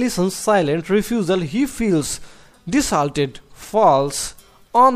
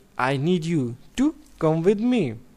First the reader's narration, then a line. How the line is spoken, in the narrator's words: He pleads very gently